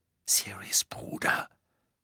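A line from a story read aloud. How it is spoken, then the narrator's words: Whispering. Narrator (German): flüsterte sie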